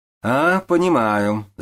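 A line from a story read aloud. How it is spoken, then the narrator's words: Laughing. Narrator (Russian): засмеялся государь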